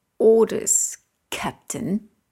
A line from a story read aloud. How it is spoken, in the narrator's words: says with a sneer